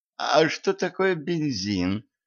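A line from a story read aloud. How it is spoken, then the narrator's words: Timid question. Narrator (Russian): робко спросил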